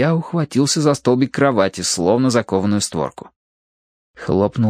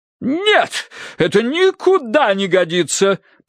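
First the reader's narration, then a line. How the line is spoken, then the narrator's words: Booming voice. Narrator (Russian): прогремела миссис Меринг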